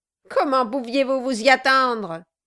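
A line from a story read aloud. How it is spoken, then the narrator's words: Dwarf sneering. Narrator (French): dit le nain en ricanant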